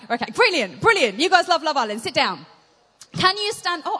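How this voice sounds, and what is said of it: Shouting. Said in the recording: “I'm shouting.”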